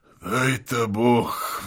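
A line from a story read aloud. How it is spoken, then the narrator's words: Sigh. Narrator (Russian): вздохнул Евстрат Спиридоныч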